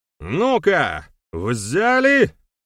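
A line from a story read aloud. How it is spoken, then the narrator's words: Shout. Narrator (Russian): крикнул Берамир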